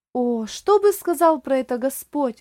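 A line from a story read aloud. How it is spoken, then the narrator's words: Exclamation. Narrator (Russian): воскликнул Оливер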